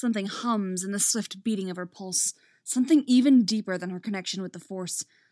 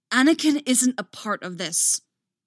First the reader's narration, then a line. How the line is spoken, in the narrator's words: Obi-Wan exclaims, forcing back the fear, the rage, with her greatest effort and not quite succeeding